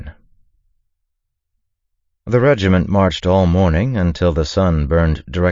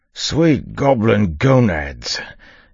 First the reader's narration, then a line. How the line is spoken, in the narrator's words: Yimt gasped, collapsing